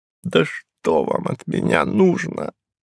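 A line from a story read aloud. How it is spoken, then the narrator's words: Moaning. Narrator (Russian): простонал он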